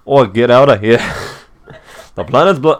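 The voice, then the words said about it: Poor Welsh accent drifting English, Australian. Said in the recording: “I can't do a Welsh accent to save my life. I went like, English, then Australian immediately ... I went more Shrek than I did Welsh”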